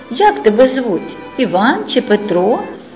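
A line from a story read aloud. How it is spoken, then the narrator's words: Loud question, lady. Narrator (Ukrainian): голосно перепитала пані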